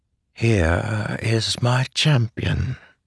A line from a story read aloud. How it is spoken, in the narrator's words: Taravangian said softly